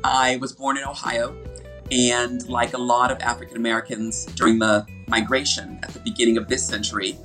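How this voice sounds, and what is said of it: American accent. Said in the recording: “as my voice and accent show, I'm American 100%”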